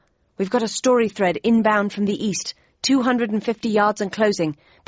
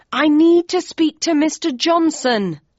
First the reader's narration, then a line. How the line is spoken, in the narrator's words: I yelled